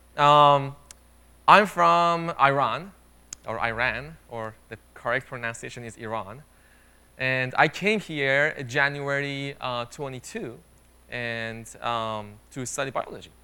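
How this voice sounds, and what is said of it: Non-native English accent. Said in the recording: “you might have noticed in my accent, I'm not from here”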